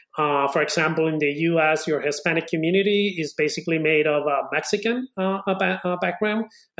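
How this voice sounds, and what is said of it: Spanish accent from Spain. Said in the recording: “Spanish from Spain ... this hard accent that I have”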